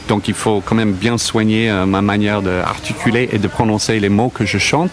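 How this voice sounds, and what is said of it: Foreign accent speaking French. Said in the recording (French): “pour un étranger qui a encore son accent ... Si on entend l'accent”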